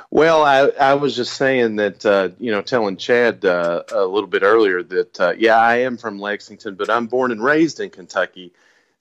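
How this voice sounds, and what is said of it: Kentucky accent. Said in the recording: “this is really a true Kentucky accent ... We got some real accents here.”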